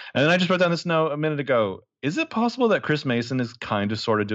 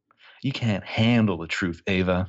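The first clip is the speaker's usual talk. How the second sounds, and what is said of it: Bad Jack Nicholson impression. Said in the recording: “doing a Jack Nicholson impression ... No, that's bad.”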